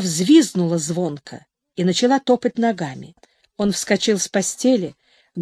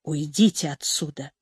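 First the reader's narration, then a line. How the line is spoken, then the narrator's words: Quiet. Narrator (Russian): сказал тихо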